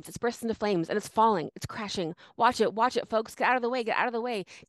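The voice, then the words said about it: Impression of a radio news reporter. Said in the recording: “do my best Herbert Morrison impression. ... Herbert Morrison is a reporter from Chicago.”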